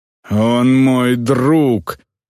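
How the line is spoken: Defiant growl. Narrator (Russian): рыкнула Эльвар в ответ воображаемому отцу

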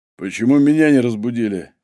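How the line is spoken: Hoarse, sleepy question. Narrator (Russian): хриплым от прерывистого сна голосом спросил Егор

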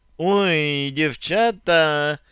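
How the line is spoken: Drawling young woman. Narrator (Russian): Протянула деваха

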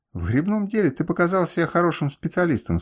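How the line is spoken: Plain. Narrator (Russian): сказал я

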